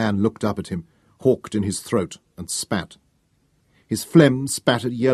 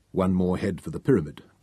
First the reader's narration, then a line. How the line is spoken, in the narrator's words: Taunus said quietly